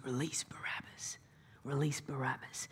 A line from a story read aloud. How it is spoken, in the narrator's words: whispering in their ears